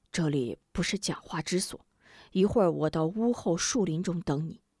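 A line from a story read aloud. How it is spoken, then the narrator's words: Old man whispering. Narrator (Chinese): 老者悄声道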